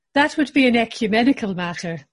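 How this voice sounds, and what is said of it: Put-on Irish accent. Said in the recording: “You just say anything in an Irish accent... Oh, it's good.”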